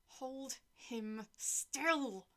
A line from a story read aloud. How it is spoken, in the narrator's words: I ordered through gritted teeth